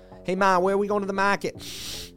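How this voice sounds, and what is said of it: Put-on Boston accent. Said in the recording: “Shedding that Boston accent”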